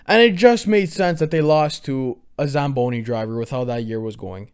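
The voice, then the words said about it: Hoarse voice. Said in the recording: “my voice is so hoarse today”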